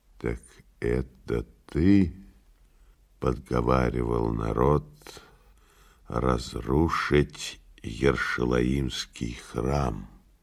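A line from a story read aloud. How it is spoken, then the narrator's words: Quiet question after pause. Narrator (Russian): Тот помолчал, потом тихо спросил по-арамейски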